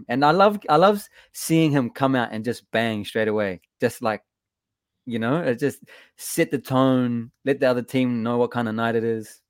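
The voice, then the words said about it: New Zealand accent. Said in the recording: “I love your accent, man. You Kiwis.”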